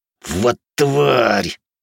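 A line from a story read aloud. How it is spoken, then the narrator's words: Hissed. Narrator (Russian): прошипел первый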